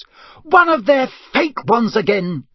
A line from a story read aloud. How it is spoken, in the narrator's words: she shouted